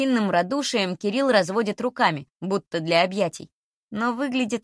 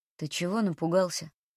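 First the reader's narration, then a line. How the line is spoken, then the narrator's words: Quiet question. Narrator (Russian): тихо спрашивает Мирон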